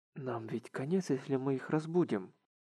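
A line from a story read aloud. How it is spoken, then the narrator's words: Whisper. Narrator (Russian): прошептал он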